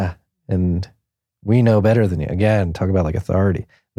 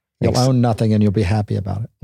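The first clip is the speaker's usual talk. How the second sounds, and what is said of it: Imitates another person's accent, poorly. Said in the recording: “You just have Klaus Schwab saying, this is the way the world's going to be. And terrible accent there”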